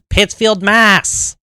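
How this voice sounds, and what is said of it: Poor put-on Boston accent. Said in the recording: “It's not a good Boston accent, no.”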